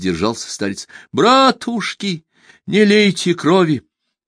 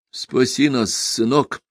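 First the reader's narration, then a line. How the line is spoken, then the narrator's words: Old man whispering. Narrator (Russian): нашептывал старец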